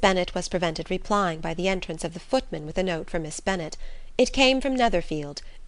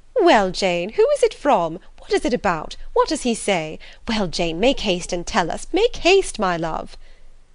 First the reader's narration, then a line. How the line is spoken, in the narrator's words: Bennet's eyes sparkled with pleasure, and she was eagerly calling out